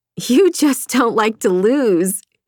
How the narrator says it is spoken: she laughed

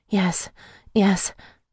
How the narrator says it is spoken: I cried softly

